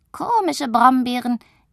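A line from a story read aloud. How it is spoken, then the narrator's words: Giggling. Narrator (German): kichert sie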